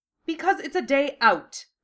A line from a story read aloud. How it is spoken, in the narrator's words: Draco snapped